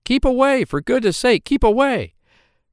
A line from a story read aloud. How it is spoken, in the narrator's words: the others cried out